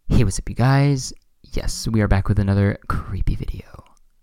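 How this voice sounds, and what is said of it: Imitates another person's voice. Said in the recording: “Can you do a Shane Dawson impression? ... I'm so good at impressions.”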